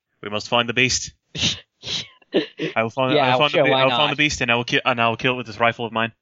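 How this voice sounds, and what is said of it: Put-on Scottish accent. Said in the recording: “speaks with a Scottish accent”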